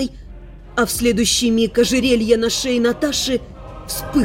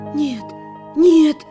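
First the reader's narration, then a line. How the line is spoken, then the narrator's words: Hoarse, disbelieving whisper. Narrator (Russian): Сипло, не веря собственным глазам, прошептала девушка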